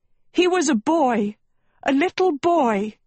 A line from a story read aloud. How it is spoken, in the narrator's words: Agatha screamed